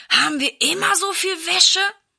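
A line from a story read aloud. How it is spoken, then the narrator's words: Groaning. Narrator (German): stöhnt Silas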